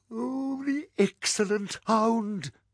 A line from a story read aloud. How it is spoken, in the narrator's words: gasped Trump